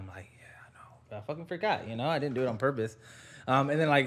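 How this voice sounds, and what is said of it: Usual voice. Nothing is said of it.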